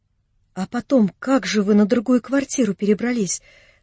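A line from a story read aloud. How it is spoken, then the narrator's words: Question through quiet crying. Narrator (Russian): спросила Анна Андреевна, продолжавшая тихо плакать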